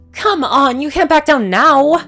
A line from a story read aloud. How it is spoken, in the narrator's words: The Pegasus exclaimed